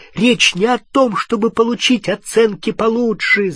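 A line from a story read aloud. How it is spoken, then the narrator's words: Shouting. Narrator (Russian): закричал на нее Гарри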